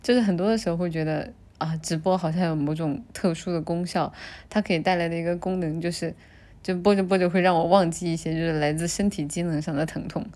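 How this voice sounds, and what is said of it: Quiet, subdued speaking voice. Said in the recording (Chinese): “我现在说话的声音有点小啊，因为就是嗓子不哑，但是嗓子非常的。疼痛就是咽口水，非常的疼痛，所以，所以我可能说话的声音会有点小”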